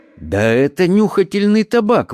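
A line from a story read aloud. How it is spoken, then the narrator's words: Exclaimed. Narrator (Russian): воскликнул он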